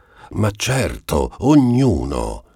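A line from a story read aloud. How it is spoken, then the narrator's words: Exclaimed by a group. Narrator (Italian): esclamavano allora i parenti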